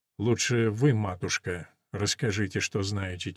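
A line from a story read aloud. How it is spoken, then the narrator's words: Guide's quiet request. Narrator (Russian): тихо просит проводник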